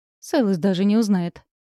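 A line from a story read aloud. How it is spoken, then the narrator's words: Smug snort. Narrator (Russian): самодовольно хмыкнул Киллиан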